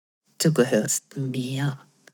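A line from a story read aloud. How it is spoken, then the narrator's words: Low murmur. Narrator (German): raunte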